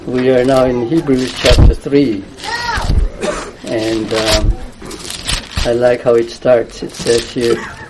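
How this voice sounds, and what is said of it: Voice sounds unwell. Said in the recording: “As you can hear from my voice, I'm not fully well.”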